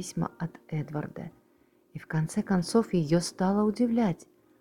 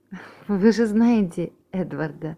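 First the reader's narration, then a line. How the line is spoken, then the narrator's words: Laughing. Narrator (Russian): засмеялась Изабелла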